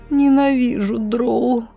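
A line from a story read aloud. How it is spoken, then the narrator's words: Moaning. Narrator (Russian): простонала Роша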